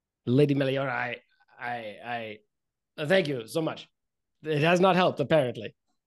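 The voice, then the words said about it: Performed character voice. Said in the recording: “That's not my character voice. I'm gonna get there in a minute.”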